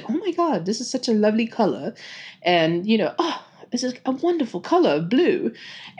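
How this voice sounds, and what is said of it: Bad put-on British accent. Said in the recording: “I do a really bad British accent”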